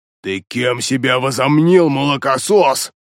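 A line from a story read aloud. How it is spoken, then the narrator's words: Angry growl. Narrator (Russian): злобно прорычал он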